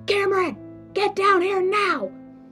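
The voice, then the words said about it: Screaming loudly. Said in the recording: “I'm screaming bloody murder”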